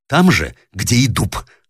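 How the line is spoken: Irritated reply. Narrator (Russian): раздраженно отвечала мужу Юлия Николаевна

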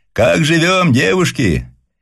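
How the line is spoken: Shouting through megaphone. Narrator (Russian): Она приложила к рту медный рупор и крикнула

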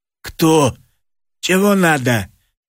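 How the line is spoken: Hoarse question. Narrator (Russian): Егор Константинович спросил хрипло

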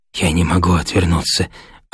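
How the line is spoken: Hunted whisper. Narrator (Russian): отвечал он затравленным шепотом

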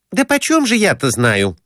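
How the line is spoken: Irritated reply. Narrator (Russian): отвечала она раздраженно

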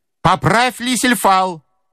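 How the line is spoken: Menacing shout. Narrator (Russian): закричал он грозно матросом

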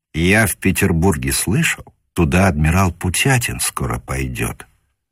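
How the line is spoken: Whispered. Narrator (Russian): шепнул лейтенант Гревинс старшему офицеру Казакевичу

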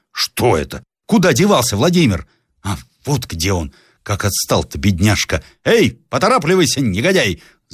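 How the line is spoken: Angry shout. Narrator (Russian): закричал он сердитым голосом

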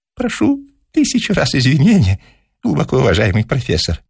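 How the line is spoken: Thin high voice. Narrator (Russian): заговорил молодой человек тонким голосом

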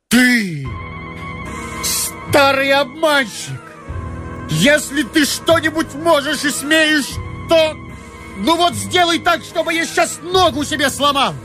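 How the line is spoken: Furious shout. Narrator (Russian): Ромашов закричал бешено

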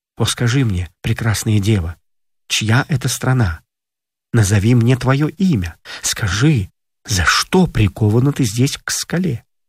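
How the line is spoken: Gentle question. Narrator (Russian): Персей ласково спросил ее

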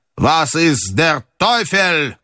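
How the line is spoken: Shout. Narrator (Russian): крикнул он

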